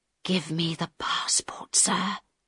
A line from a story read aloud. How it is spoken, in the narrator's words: Harold whispered very quietly